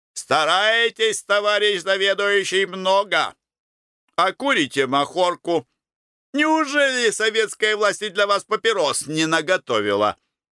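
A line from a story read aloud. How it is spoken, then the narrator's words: Loud, cheerful, friendly. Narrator (Russian): Перец весело и дружелюбно сказал громко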